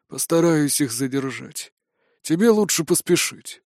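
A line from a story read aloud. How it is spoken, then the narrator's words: Heavy sigh, absent tone. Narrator (Russian): Николай Семенович тяжело вздохнул и отсутствующим тоном произнес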